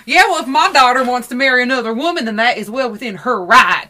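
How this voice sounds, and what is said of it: Put-on Southern American accent. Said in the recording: “he starts using Southern accents to say very progressive things”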